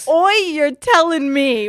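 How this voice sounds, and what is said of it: Put-on Australian accent. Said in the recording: “in his hot Australian accent”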